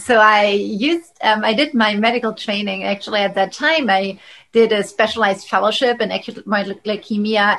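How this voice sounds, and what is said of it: German accent. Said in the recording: “what your accent is, you came from Germany”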